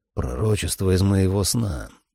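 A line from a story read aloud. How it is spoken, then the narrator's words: Muttering. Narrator (Russian): пробормотал я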